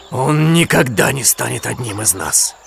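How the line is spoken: Growling. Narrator (Russian): прорычал он Кале

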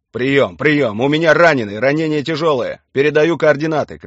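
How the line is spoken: Shouting into radio. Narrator (Russian): кричал Виктор Иванович в рацию

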